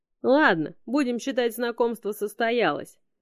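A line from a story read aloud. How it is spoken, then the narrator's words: Giggling possum. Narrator (Russian): все еще хихикая, сказал опоссум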